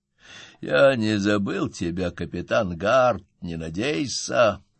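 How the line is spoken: Muttered. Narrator (Russian): пробормотал

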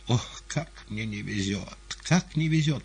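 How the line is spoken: Exclaiming. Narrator (Russian): воскликнул он

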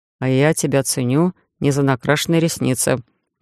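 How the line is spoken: Grumbling mutter. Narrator (Russian): ворчливо пробурчал шеф

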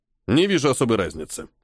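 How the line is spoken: Calm. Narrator (Russian): спокойно произнес полковник

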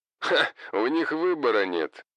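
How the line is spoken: Laughing. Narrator (Russian): рассмеялся Хосе

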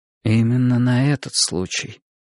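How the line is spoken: Muffled, hollow voice. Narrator (Russian): глухо произнесла Мария Семеновна

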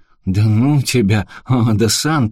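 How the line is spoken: Groaning. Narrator (Russian): простонал Фрэнк

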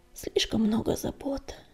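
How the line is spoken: Sigh. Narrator (Russian): вздохнул Огнегриф

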